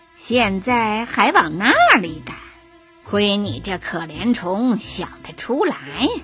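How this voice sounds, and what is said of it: Nasal character voice. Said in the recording (Chinese): “他才用带鼻音的声音说”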